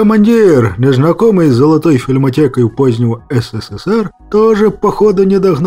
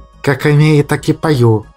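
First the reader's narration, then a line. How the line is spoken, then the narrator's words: Silent mental snap. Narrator (Russian): мысленно огрызнулся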